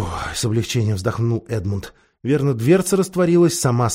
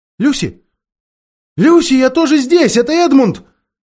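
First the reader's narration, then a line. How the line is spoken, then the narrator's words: Shouted. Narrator (Russian): крикнул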